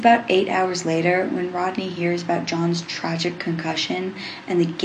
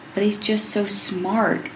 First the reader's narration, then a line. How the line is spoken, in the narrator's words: Rodney tells Cadman sadly